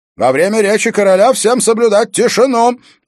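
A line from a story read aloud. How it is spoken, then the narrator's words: Shout. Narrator (Russian): закричал он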